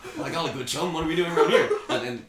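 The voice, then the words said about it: Imitated character voice. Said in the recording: “doing the voices of the characters”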